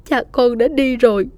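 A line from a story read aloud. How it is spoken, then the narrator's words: Tearful sobbing. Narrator (Vietnamese): mẹ nức nở nói trong nước mắt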